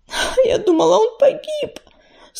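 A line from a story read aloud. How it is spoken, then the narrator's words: Convulsive sob. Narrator (Russian): судорожно всхлипнула Листвичка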